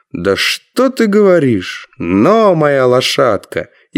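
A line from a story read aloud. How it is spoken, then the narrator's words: Loud laughing reply. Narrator (Russian): человек громко рассмеялся и ответил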